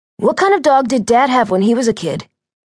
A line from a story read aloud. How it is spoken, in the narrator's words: Jeff asked